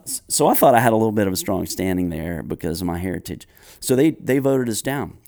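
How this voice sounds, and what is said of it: Southern American accent. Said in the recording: “an actual Southern accent, which you're listening to me right now”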